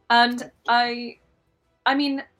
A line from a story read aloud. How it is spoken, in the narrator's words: I yelled at her very loudly